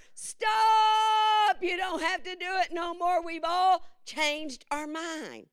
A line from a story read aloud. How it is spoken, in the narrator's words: Everybody began to holler